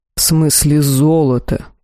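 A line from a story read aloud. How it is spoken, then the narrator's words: Hissing. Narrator (Russian): прошипел Эл-Ахар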